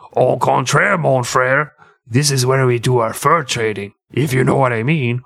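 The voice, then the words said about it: Put-on French accent. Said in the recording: “my fucking French accent”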